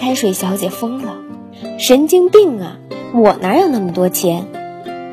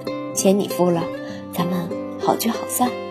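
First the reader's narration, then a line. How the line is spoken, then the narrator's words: Low voice. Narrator (Chinese): 可乐先生低声说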